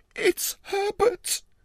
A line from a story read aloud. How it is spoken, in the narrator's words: She screamed